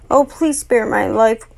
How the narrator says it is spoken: whimpered the sly little fox

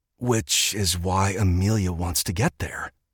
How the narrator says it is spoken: Edmund breathed

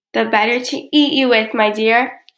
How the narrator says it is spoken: roared the wolf

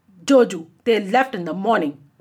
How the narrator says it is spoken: replied Jimki

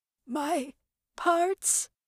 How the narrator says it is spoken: Gloria whimpered

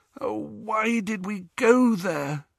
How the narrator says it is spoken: groaned Hermione

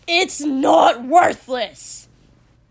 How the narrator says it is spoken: Kotsky yelled

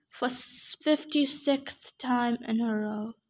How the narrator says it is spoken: Chiron announced without pleasure, and then he muttered

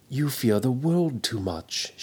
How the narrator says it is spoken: she answered gently

